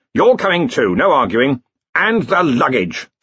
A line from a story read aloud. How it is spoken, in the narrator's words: snapped Ridcully